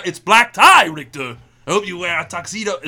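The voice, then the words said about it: Imitates another person's voice. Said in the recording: “great fucking Arnold impression ... It's great. It's amazing. ... Spot on.”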